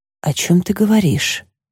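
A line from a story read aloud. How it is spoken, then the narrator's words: Quiet reply. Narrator (Russian): ответила тихо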